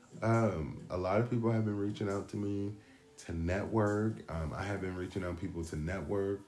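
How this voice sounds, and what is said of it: Raspy voice. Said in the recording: “This raspy ass voice, actually. It's my 6 o'clock voice”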